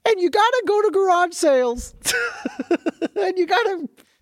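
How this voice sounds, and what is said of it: Imitates another person's voice. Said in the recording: “Is that a good impression for you? ... That was a great impression.”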